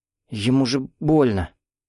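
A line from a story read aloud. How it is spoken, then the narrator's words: Uncertain. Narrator (Russian): Лишь одна сказала неуверенно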